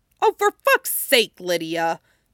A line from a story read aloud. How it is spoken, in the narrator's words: Jackson snaps back